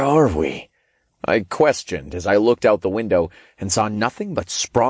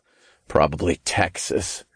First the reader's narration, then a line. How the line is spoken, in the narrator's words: snorted